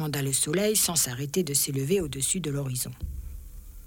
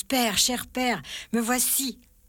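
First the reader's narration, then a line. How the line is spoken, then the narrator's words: Boy shouting with full force. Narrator (French): le jeune garçon cria de toutes ses forces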